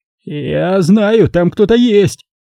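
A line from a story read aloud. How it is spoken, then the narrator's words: Frightened shout. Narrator (Russian): крикнул он испуганно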